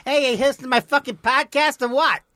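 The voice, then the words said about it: Put-on New York accent. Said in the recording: “This is the New York guy who has a podcast.”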